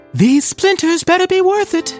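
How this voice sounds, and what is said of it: High falsetto voice. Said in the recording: “In falsetto, Jack in the Box moaned”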